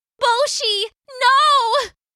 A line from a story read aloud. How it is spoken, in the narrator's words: Akari cried